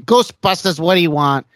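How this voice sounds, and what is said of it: New York Long Island accent impression. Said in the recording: “That New York City, Long Island kind of accent ... That's a good impression. That was a good impression.”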